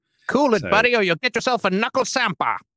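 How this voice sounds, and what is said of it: Put-on British accent. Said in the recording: “What kind of weird British pronunciation of sandwich is that? ... I thought you were doing so well with your British accent”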